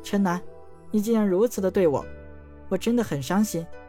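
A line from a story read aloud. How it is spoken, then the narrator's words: Long sigh. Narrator (Chinese): 她悠悠叹道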